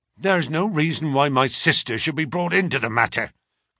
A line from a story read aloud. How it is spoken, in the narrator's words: growled the younger man